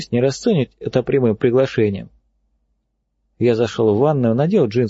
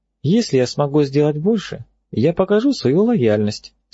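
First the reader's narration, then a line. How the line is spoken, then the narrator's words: Calm. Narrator (Russian): спокойно ответила она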